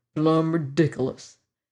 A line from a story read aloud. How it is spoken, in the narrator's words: he muttered